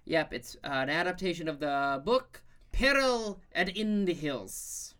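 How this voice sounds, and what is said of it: Put-on South African accent. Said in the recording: “for those who don't speak whatever accent, ... just ... did ... South African”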